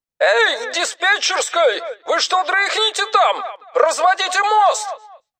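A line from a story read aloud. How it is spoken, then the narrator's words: Shouting. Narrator (Russian): Он прокричал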